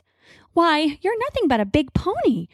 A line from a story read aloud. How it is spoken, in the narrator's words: she says with a musical little laugh